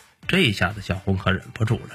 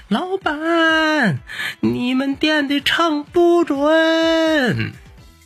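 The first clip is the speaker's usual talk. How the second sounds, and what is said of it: Loud shout. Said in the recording (Chinese): “冲着店里头都大喊上了”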